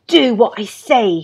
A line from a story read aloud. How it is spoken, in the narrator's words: snapped